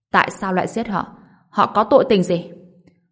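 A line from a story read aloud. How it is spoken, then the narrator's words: Frantic roar. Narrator (Vietnamese): Ngô Bình điên cuồng gầm lên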